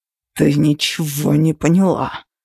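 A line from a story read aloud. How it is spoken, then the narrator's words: Through clenched teeth. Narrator (Russian): процедил сквозь зубы Тейт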